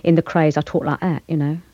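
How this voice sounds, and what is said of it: Put-on Cockney accent. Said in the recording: “I'll do a bit for you in Cockney... she's a Cockney. She comes from the East End, and she talks like that”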